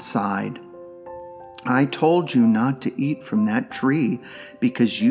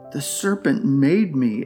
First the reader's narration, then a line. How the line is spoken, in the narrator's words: exclaimed Eve